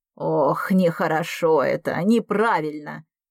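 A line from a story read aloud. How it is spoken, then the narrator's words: Sighing grandmother. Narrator (Russian): вздохнула бабушка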